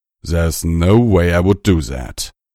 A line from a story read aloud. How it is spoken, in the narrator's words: Tirado snarled